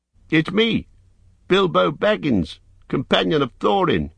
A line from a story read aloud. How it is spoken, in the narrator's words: cried, hurriedly